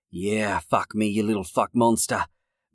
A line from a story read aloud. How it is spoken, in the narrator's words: Max said through clenched teeth